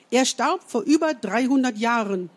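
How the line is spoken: Calling out. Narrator (German): rief

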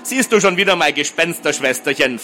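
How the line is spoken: Mocking question. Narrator (German): fragte spöttisch

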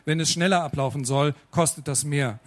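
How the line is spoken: Confident voice. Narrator (German): fuhr Max mit selbstbewusst klingender Stimme fort

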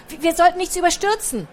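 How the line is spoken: Called out. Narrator (German): rief Picandu

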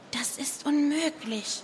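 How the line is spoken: Whispering. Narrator (German): flüsterte Nova

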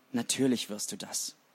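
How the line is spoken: Quiet. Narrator (German): sagte Flink leise

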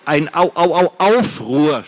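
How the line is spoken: Stuttering. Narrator (German): stotterte Gregor

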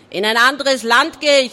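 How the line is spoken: Calling out. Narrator (German): rief Barty

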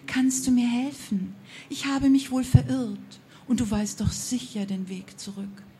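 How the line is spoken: Honey-sweet female voice. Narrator (German): sagte die Frau mit honigsüßer Stimme

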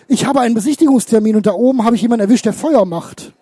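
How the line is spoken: Gasping. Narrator (German): keuchte Lürsen

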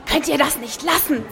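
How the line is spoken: Hissing. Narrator (German): zischte Lili

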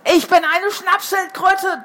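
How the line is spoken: Thundering voice. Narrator (German): donnerte es in unseren Köpfen

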